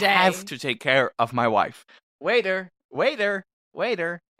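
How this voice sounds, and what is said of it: Yelling loudly. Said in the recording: “stop yelling”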